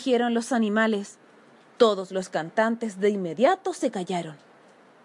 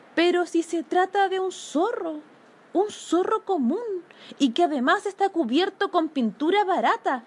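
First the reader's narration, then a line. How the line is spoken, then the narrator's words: Group exclaiming. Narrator (Spanish): exclamaron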